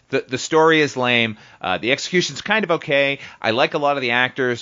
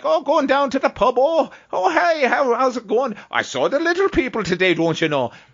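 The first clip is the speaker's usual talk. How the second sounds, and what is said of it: Exaggerated old-movie Irish brogue. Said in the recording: “I can trot out my brogue ... Irish ... what I've seen from movies from the 1940s and 50s”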